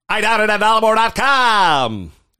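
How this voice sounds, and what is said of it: Radio DJ announcer voice. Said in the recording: “do my DJ voice.”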